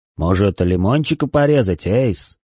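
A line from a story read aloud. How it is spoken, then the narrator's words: Deep bass voice. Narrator (Russian): пробасил он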